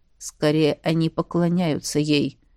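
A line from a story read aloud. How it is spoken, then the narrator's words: Quiet. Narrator (Russian): тихо ответил Дари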